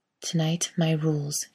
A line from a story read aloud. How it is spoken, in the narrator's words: she whispers